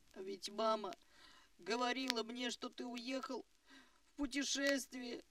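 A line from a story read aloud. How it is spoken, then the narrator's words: Babbling through sobs. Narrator (Russian): лепетал он сквозь рыдание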